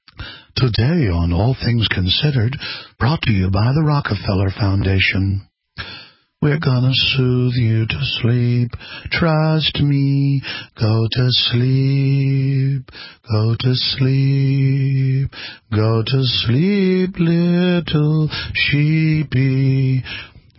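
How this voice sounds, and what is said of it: Sweet soothing NPR radio voice. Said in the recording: “the real predators know how to sidle up to you and tell you, I'm NPR. Sweet little, here, I'm an NPR voice.”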